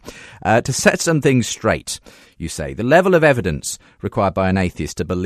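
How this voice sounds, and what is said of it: Usual voice. Nothing is said of it.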